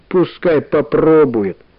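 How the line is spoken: Plain. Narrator (Russian): сказал Сережа

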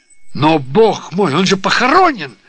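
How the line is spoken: Exclamation. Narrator (Russian): воскликнул сэр Уильям

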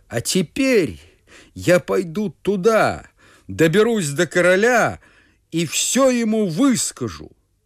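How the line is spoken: Furious shout. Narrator (Russian): да как закричит в ярости

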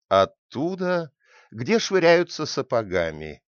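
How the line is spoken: Laughing reply. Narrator (Russian): смеясь ответила

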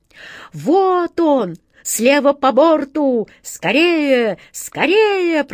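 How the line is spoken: Swallow's piercing cry from above. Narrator (Russian): пронзительно закричала сверху ласточка

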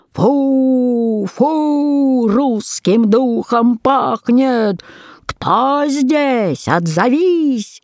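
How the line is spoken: Loud booming shout. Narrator (Russian): Да как закричит зычным голосом

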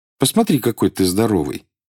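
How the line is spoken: Calm continuation. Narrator (Russian): спокойно продолжал

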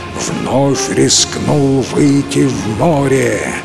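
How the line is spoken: Dragon's roar. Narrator (Russian): взревел дракон

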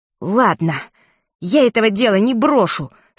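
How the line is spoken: Angry. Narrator (Russian): сказал он сердито

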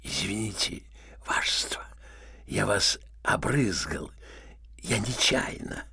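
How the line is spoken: Cough then whisper in ear. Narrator (Russian): Червяков кашлянул, зашептал генералу на ухо

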